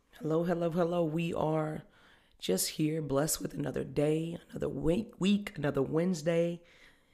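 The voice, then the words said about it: Strained, partly lost voice. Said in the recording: “my voice has been up and down... lost my voice... My voice has just been off and on for the last couple of weeks”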